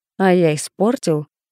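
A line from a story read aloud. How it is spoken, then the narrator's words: Amused snort. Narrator (Russian): хмыкнул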